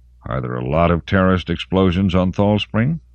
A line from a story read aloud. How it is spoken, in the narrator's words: Detective Captain Oisin Benson smiled coldly